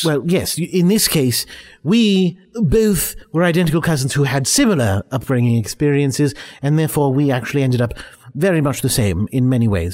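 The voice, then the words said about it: English accent. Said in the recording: “You have the same accent. Did you grow up in the same part of England?”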